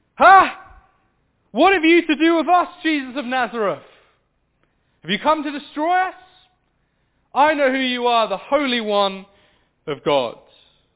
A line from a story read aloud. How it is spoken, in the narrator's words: he cried out with a loud voice